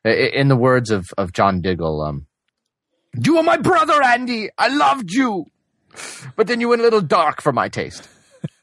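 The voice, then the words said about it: Put-on British accent, dramatic. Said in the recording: “when did he get the British accent?”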